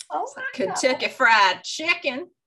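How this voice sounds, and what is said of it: Put-on Southern American drawl. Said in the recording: “really strong southern accents ... That drawl.”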